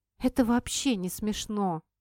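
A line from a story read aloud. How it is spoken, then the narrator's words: Gloomy declaration. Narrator (Russian): заявила ему мрачно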